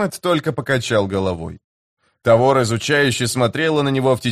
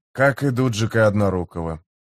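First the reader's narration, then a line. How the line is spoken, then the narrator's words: Muttered to himself. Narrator (Russian): пробормотал себе под нос Гэммет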